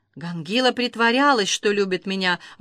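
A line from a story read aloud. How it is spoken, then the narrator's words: Breathy exhale. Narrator (Russian): выдохнула она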